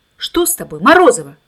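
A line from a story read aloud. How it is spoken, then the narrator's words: Shouted. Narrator (Russian): крикнула учительница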